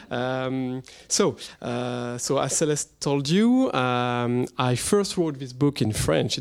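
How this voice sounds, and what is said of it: French-accented English. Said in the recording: “excuse my French accent”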